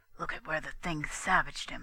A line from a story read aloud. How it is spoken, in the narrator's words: He whispered to Daisy